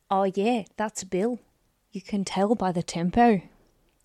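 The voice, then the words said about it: Bad put-on accent. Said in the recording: “without doing the accent because that was appalling”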